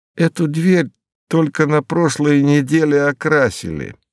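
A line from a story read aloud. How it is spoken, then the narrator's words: Half plaintive, half spiteful. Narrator (Russian): произнес мистер Хиггенботтем не то жалобно, не то злобно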